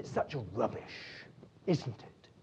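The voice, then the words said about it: Broad Devonian accent. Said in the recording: “in a lovely, broad Devonian accent.”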